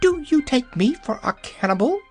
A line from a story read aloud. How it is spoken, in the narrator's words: cried the hen indignantly